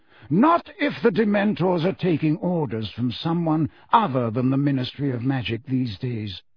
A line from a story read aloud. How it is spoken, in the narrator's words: said Dumbledore calmly